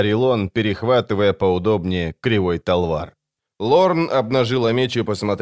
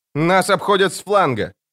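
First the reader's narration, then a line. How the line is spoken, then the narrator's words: Shout. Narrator (Russian): крикнула она арбалетчику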